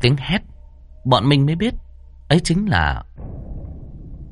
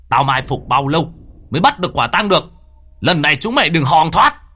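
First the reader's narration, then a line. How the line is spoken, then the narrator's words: Shouted. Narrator (Vietnamese): Người nọ hét lên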